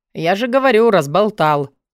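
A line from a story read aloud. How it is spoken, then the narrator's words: Snort. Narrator (Russian): фыркнул Алви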